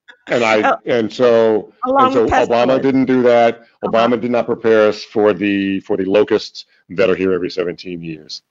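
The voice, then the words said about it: Imitates another person's voice. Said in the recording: “My Donald Trump impersonation sucks... I think that it has improved.”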